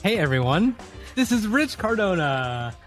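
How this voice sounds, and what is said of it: Fake podcast host voice. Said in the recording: “That was my fake podcast voice.”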